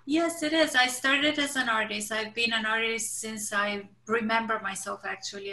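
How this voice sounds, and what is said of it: Bulgarian accent. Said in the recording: “you'll notice an accent. You are originally from Bulgaria”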